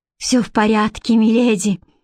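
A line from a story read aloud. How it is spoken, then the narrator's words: Sighing. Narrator (Russian): вздохнула Бренна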